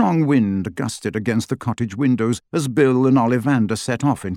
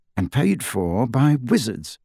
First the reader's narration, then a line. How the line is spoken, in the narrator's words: said Bill quietly